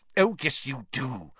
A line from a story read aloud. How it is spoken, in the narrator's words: said Professor McGonagall irritably